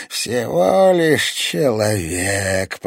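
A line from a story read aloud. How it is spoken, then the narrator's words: Eerie guttural growl. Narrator (Russian): прорычала она жутким утробным голосом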